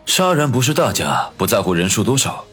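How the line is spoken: Flat, contemptuous. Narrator (Chinese): 常青山不屑地……淡淡的说道

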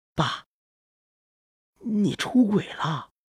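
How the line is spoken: Nervous, quiet. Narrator (Chinese): 咽了咽口水，小声说道

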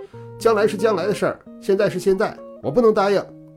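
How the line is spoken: Loud shout. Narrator (Chinese): 我也大声叫道

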